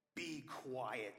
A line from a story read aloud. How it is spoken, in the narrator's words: Jesus said sternly